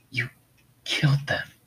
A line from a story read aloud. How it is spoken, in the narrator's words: Haku wheezed and gasped for air desperately